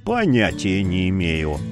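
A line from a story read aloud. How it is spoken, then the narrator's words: Grumbling. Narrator (Russian): буркнул Яромир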